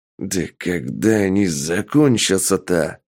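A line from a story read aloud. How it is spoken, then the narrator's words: Growling policeman. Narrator (Russian): прорычал полицейский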